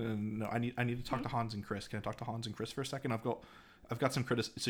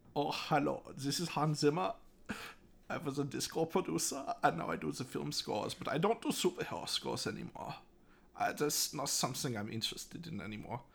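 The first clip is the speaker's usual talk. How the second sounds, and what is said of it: Put-on German accent. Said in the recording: “So you can do either a German accent or an English accent here.”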